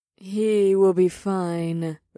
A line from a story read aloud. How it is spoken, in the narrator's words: Ada said in one of her purring tones